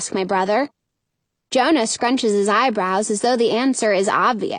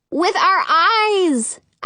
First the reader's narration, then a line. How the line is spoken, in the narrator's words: exclaim